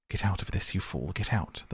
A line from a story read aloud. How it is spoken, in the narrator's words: the mole heard him mutter